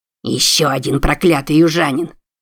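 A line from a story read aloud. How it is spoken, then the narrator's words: Angry growl. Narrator (Russian): злобно прорычал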